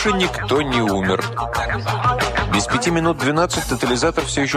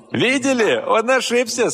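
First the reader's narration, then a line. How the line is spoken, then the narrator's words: Laughing. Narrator (Russian): смеялся этот несчастный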